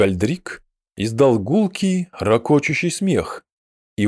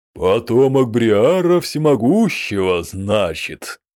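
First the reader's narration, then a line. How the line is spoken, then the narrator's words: Booming voice. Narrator (Russian): прогремел Гламгальдрик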